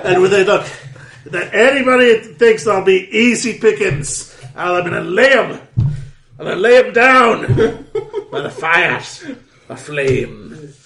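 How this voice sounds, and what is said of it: Put-on Scottish accent. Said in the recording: “that Scottish accent”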